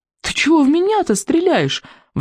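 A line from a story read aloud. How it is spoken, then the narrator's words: Wailing while running. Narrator (Russian): взвыл Икинг на бегу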